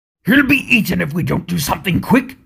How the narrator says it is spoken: said Thorin, for there were howls all around them now, getting nearer and nearer

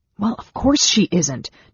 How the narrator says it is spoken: Tanis snapped

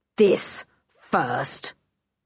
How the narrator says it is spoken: said Tiger Dan in a brutal voice

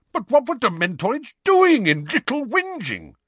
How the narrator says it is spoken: said Uncle Vernon in an outraged tone

